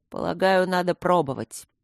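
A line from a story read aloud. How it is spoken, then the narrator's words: Sullen grumble. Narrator (Russian): хмуро проворчал Трот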